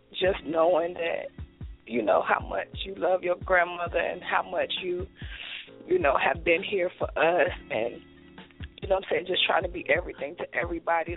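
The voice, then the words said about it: Emotional, choked-up voice. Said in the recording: “little emotional”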